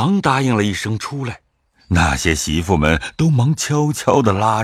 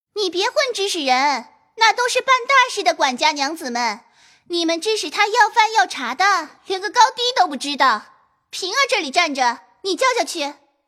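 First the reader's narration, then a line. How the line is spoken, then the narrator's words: Raised voice. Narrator (Chinese): 探春听说，便高声说道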